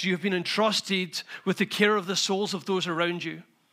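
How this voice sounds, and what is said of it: Gentle Scottish accent. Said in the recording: “I know I have a very gentle Scottish accent, and it feels like you're listening to a storybook”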